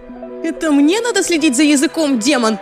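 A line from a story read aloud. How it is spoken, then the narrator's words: Shrieking. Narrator (Russian): визжала Лиззи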